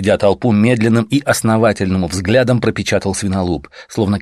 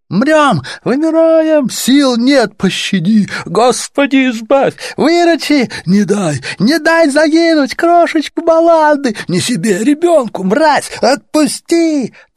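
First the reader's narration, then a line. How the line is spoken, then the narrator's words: Crowd moaning in unison. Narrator (Russian): Толпа перестала говорить по-человечески и опять застонала единой глиняной грудью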